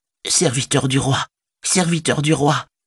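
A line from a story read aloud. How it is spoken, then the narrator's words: Silent inner plea. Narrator (French): implorait son cœur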